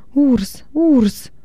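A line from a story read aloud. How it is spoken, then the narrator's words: Shouting. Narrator (Russian): Лигия закричала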